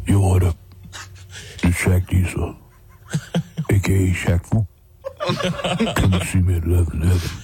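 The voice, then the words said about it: Imitates another person's voice. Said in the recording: “your Shaq impression ... I think it's pretty good ... It's a good one. It's a good impression.”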